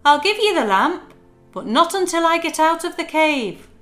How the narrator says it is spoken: he shouted

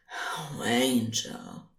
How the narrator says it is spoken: was whispering

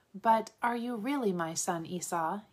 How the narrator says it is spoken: he asked

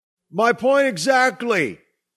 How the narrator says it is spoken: Doug yelled

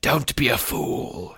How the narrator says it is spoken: snarled

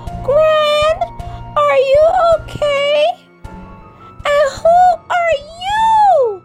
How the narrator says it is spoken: She screamed at the imposter

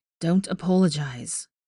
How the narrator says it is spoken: Harry sighed

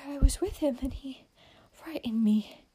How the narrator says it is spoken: gasped Amy

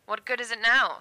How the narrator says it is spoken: said the astronomer, bitterly

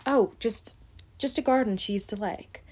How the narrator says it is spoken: Mary stammered

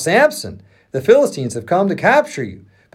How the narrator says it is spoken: Delilah cried out

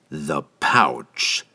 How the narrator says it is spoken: Entreri reiterated, his tone now deadly serious

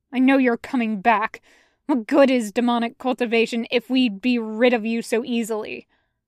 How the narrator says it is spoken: he'd spat

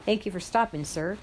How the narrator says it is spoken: the bigger one of the two boys who got on the bus late said to the driver in a real down south accent

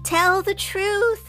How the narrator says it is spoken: I begged Pinocchio

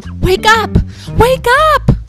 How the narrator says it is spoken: they shouted

